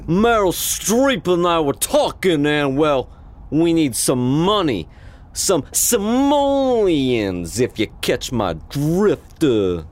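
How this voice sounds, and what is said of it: Mediocre put-on Italian-American accent. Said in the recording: “in just a okay Italian-American accent”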